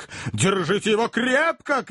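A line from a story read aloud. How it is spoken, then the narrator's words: Shout. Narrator (Russian): кричал мистер Снодграсс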